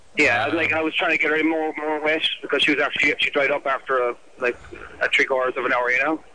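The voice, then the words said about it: Irish accent. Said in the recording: “What's the accent here? ... Gaelic or something. ... Where's the accent from? ... Ireland.”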